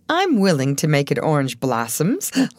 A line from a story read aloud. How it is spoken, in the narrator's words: laughed the young fellow